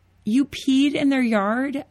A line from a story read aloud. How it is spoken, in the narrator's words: shrieked